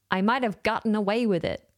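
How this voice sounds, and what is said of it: Bad put-on American accent. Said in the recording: “That was a terrible American accent.”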